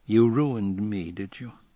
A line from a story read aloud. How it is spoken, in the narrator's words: he inquired blandly